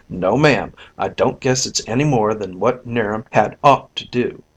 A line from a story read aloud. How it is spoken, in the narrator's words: She added firmly, after a moment's pause